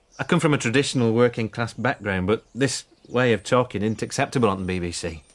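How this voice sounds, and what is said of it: Lancashire northern English accent. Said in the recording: “Lancashire. I mean, Lancashire. In the northwest of England. ... So now you are speaking in a Lancashire accent? ... Yes.”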